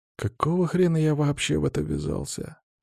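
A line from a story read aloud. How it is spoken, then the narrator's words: Whisper. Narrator (Russian): прошептал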